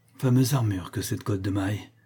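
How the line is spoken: Weakly. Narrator (French): dit-il faiblement

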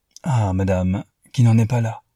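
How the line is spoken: Soft sigh. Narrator (French): soupira-t-il doucement

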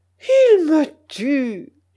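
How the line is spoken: Exclaimed. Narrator (French): s'exclama mon oncle

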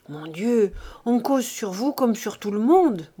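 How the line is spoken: Young girl murmuring. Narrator (French): murmurait la jeune fille

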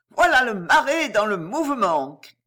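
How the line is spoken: Sneering. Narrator (French): ricanait

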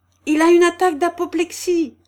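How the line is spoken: Loud ringing shout. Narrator (French): cria-t-il d'une voix qui retentit dans toute la rue

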